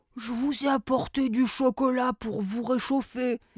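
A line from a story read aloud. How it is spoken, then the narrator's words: Elf murmuring. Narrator (French): murmura un lutin pâtissier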